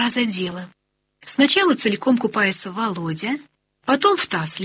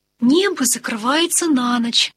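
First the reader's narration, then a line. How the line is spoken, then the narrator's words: Plain. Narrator (Russian): говорит Марья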